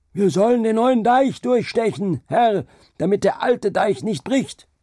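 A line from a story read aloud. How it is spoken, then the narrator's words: Shouted back. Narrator (German): Und der Mensch schrie dagegen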